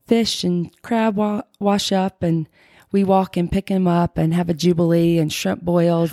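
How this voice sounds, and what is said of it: Cute Southern Alabama accent. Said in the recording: “The cutest accent ... Alabama”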